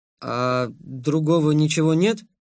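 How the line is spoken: Uncertain question. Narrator (Russian): неуверенно поинтересовался я

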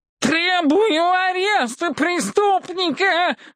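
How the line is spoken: Yelling demand. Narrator (Russian): вопил Весловусый

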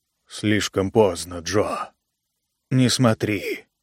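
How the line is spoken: Calm, barely audible. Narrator (Russian): Спокойно и едва слышно Эл произнес

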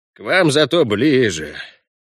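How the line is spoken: Sighing goblin. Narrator (Russian): вздохнул гоблин

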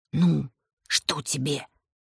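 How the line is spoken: Whisper. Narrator (Russian): прошептал Макар

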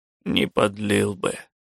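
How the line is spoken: Sad. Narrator (Russian): сказал Хаген печально

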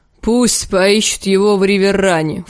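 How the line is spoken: Snort. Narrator (Russian): фыркнул Лим

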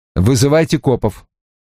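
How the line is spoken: Said sharply. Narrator (Russian): резко сказал

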